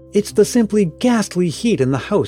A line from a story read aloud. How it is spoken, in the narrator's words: exclaimed, who was not looking too grand herself